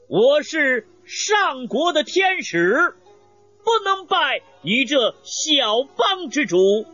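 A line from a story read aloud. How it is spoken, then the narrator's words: Loud reply. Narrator (Chinese): 邓芝高声回答道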